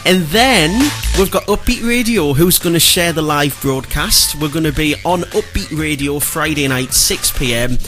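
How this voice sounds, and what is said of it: Geordie accent. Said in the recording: “Our little Geordie accent's”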